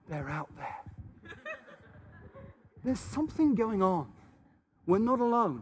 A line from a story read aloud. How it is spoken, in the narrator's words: he'd kind of crouch down, and he'd whisper to me and say